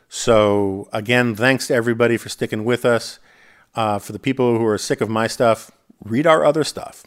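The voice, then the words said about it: Strained, fading voice. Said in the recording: “I'm already losing my voice.”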